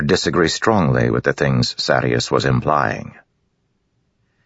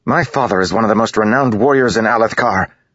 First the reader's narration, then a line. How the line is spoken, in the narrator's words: Adolin snapped